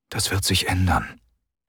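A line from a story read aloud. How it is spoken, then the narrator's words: Quiet. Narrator (German): sagte der General leise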